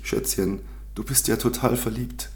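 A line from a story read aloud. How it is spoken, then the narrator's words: Sudden exclamation. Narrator (German): rief Luisa plötzlich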